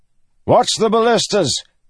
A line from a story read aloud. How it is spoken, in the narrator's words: Gabalar shouted